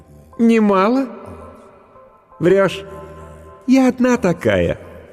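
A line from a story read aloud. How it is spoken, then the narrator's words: Bitter laugh. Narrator (Russian): Она горестно рассмеялась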